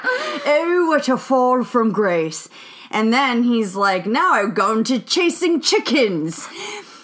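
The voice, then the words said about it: Put-on British accent. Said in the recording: “I get to do my British accent.”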